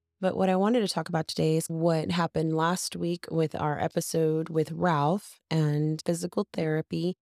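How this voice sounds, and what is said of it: Voice affected by allergies. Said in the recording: “excuse my voice. ... Having a little allergies this week.”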